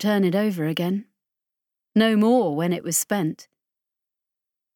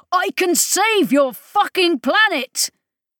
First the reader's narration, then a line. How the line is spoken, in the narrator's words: Idris shouted at him, at them both, at all the universe